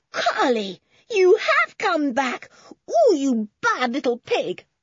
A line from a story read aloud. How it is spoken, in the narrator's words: cried George